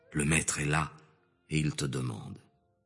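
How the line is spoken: Low voice. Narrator (French): appela Marie, sa sœur, à voix basse en disant

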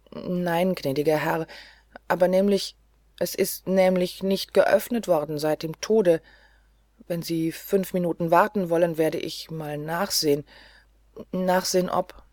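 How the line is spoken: Stammering. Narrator (German): Er stammelte

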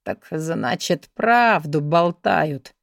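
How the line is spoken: Gruff mutter. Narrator (Russian): буркнул Алекс

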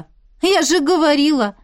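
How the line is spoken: Exclamation. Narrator (Russian): воскликнула Марьяна

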